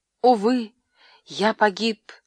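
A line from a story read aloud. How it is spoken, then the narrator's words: Exclaimed. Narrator (Russian): воскликнул я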